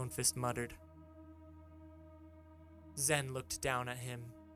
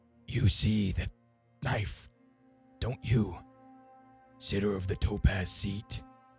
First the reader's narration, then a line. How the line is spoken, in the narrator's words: in a manic voice, he said